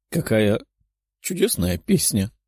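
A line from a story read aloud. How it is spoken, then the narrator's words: Tearful. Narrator (Russian): сквозь слезы произнесла Лиза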